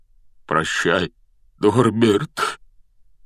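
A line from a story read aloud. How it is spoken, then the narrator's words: Breaking, choked voice. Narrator (Russian): Срывающимся голосом выдавил из себя Хагрид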